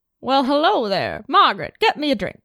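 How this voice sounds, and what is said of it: Put-on mid-Atlantic accent. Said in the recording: “Working on her mid-Atlantic. ... I'm working on my Cary Grant mid-Atlantic accent. ... It is better than when we started this recording.”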